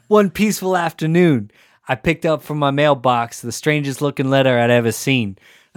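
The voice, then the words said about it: Put-on New Jersey accent. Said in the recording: “Can you do it in a Jersey accent, like, Carmen?”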